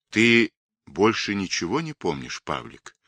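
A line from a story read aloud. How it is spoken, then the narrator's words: Quiet question. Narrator (Russian): тихо спросил Цой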